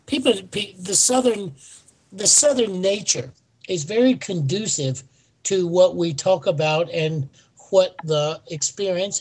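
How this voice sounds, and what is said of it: Southern US accent. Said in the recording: “I love that you're from South Carolina, and I love your accent.”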